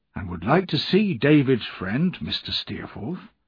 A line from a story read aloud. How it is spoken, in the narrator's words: said Peggotty kindly